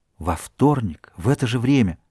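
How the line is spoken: Whispered. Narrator (Russian): он прошептал

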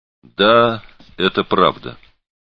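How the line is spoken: Gloomy, after a pause. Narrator (Russian): Повалу, мрачно потупив глаза, а потом сказал

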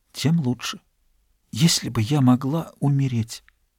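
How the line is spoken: Whispered. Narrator (Russian): Она прошептала

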